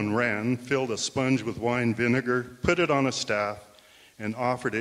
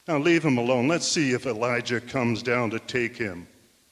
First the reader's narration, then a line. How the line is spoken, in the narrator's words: he said